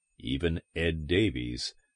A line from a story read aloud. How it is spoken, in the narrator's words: Conger murmured